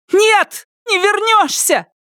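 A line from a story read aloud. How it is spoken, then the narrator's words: Shouted. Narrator (Russian): крикнула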